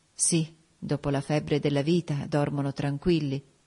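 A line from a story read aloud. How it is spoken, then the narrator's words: Murmured. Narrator (Italian): mormorai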